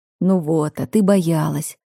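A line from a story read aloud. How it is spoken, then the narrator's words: Seductive low voice. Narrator (Russian): Таким соблазнительным и низким голосом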